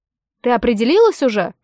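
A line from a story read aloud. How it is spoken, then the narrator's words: Snorting. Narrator (Russian): фыркнул Вассервальд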